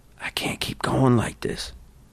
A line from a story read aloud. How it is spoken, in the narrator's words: whispered